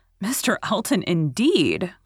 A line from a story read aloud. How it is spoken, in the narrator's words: cried Harriet indignantly